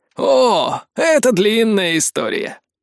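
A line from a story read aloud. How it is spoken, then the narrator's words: Wry chuckle. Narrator (Russian): хмыкнул копье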